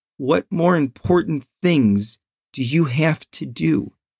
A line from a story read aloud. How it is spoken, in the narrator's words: In an almost beaten, cracking voice, he asked